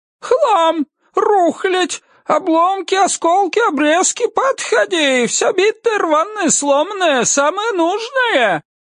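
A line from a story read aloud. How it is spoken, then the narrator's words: Loud yelling. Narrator (Russian): Человек в латах орал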